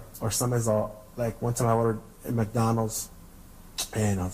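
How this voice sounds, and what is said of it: Usual voice. Nothing is said of it.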